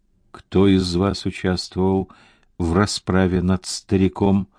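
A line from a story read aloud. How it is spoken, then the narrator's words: Asking through gritted teeth. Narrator (Russian): сквозь зубы спросил он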